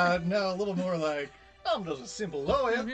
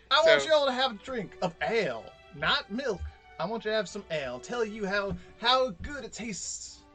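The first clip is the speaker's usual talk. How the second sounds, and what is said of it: Southern lawyer character voice. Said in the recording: “I went from having a Hulk Hogan accent ... to ... sort ... southern. ... Of like a southern lawyer. ... Preacher.”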